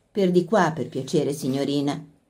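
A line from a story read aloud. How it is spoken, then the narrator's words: Unctuous voice. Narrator (Italian): disse con voce untuosa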